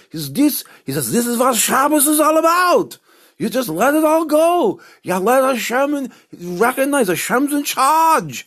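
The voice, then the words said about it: Imitated accent, maybe not convincing. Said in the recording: “I don't know if that was a good accent”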